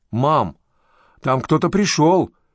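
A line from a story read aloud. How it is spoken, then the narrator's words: Shout. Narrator (Russian): крикнула Бритни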